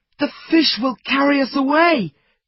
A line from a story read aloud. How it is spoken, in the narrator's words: cried Fritz